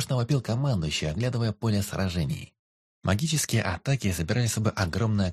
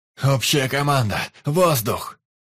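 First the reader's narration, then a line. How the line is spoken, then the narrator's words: Loud shouted command. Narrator (Russian): заорал командующий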